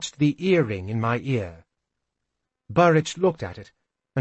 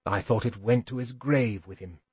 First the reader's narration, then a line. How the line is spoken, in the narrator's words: more quietly